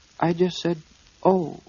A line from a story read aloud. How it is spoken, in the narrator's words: said Piglet nervously